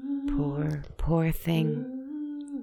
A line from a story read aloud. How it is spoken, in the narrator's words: the girl said sadly